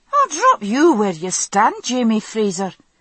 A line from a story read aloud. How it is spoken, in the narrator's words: she retorted, calmly